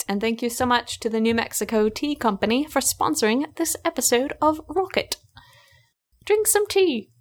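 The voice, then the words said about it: Put-on English accent. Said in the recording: “I like that English accent. That was good. That was good.”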